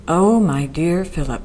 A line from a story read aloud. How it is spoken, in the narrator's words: she sighed